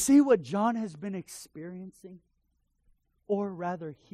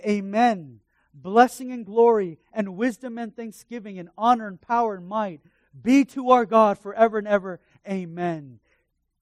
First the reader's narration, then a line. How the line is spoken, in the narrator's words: They shouted